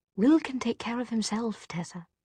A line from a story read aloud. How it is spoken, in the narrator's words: he repeated gently